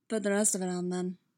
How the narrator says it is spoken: Bucky said in that husky voice

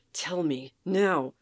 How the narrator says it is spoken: Soldier snarls

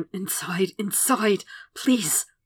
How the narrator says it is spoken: He starts murmuring

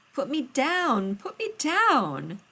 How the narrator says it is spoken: spun her in a circle so that she shrieked

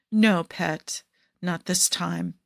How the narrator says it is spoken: he murmurs

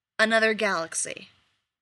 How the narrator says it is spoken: Ruby says flatly

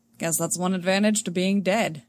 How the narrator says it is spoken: Han dryly says

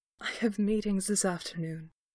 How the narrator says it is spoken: he murmured, though it was no real protest

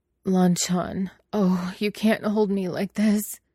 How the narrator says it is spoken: he moans wantonly, half out of his mind with dizzying pleasure

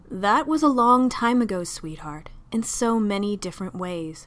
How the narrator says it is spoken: Jack said

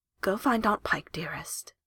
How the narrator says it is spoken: she says gently

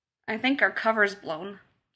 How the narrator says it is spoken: John murmured

